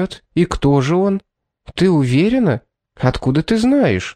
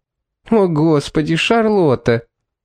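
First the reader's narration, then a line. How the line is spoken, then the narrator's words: Exhausted moan. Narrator (Russian): в изнеможении простонала Эмили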